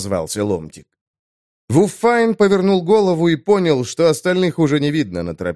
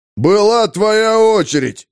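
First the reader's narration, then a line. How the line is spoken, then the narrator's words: Wailing. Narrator (Russian): завопил узелок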